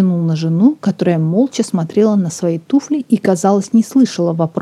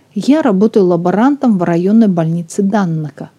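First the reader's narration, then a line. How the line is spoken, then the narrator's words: Plain. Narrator (Russian): сказал Сэнди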